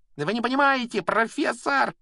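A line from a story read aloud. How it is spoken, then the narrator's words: Shrieking. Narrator (Russian): визжал Малфой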